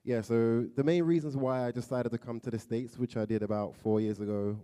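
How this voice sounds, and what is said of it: London English accent. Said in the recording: “From London, England. You probably can tell by my accent, it's a bit different.”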